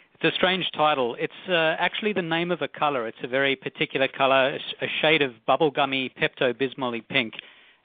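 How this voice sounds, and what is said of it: Australian accent. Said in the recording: “a cute Australian accent”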